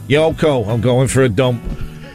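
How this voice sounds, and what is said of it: Put-on comic regional accent. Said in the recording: “keep slagging Yoko off in that, in that accent ... you sound a little bit more like Peter Kay”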